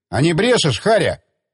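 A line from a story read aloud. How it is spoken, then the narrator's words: Shouted. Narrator (Russian): крикнул он сторожу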